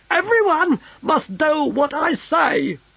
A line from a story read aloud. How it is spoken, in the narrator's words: screamed the Emperor